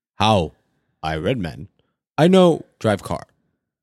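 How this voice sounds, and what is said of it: Imitates another person's voice. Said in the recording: “That was my Obama impression.”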